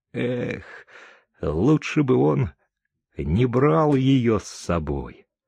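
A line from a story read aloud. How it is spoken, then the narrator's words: Sad. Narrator (Russian): печально сказала Чика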